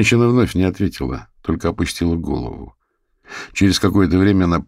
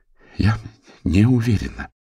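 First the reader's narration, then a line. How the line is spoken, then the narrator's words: Strained, forced out. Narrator (Russian): сумела выдавить она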